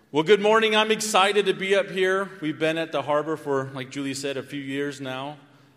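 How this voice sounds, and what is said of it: Very loud speaking voice. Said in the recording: “I'm really loud ... I hold it really close ... if I'm screaming too loud ... Really hot microphone. ... Turn me down a little bit.”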